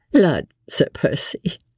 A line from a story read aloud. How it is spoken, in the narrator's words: laughed Lady Blakeney